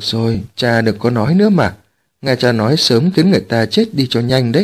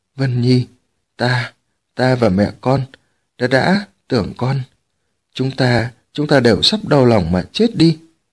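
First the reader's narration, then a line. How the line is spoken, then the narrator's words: Stammering. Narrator (Vietnamese): Tống Chi Huyện lắp bắp nói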